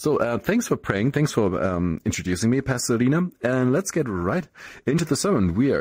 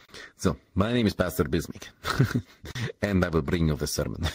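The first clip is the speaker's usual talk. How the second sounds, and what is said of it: Exaggerated put-on accent. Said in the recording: “That's not my accent. My accent is not that wor- not that bad.”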